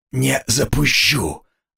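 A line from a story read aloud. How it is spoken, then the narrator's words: Hoarse wheeze after coughing. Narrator (Russian): откашлившись, просипел я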